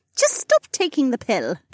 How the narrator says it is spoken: Becca scoffed

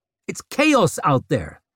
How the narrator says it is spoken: snapped Vic

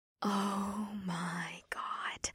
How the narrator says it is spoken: Janine breathed, with her jaw on the floor

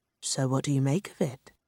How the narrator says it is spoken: Mel murmured

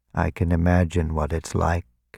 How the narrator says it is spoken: he said quietly

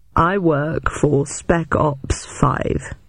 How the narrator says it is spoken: he announced slowly

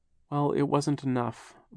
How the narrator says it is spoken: Violet said sadly

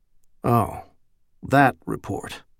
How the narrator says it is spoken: he murmured

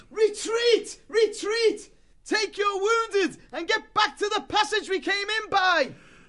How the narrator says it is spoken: the warrior mouse yelled aloud

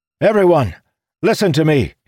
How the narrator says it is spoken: he shouted

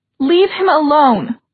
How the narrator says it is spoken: Emma shouted

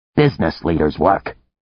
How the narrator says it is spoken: Antar said sharply

